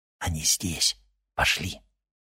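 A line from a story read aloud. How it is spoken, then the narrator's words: Whisper. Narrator (Russian): прошептал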